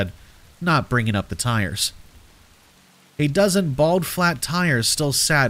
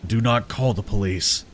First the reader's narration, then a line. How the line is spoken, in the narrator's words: he said, his tone steelier than I had ever heard